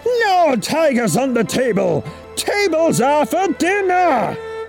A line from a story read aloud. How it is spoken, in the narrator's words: he roared